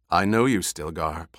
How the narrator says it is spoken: Paul said

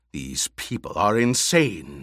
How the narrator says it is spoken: the Emperor snarled

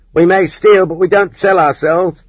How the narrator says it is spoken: the women thieves yelled at the prostitutes

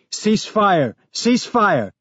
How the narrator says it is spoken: Someone in the other group was yelling

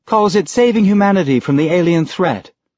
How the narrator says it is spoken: Sam said sweetly

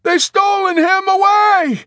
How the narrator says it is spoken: Dunbar shouted back

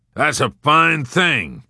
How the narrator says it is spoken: General Dreedle growled

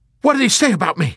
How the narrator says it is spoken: he demanded excitedly in a fervor of proud and blissful anticipation

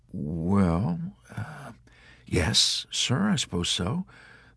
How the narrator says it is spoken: the chaplain answered hesitantly

